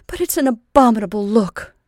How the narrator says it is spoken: exclaimed

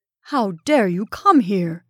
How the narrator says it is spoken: asked Van Cheele furiously

